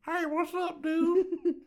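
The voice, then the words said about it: Baby-like comedic character voice. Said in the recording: “I sound like a baby Richard Pryor.”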